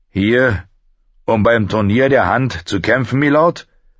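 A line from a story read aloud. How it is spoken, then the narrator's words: Guard calling out. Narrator (German): rief ein Gardist ihm zu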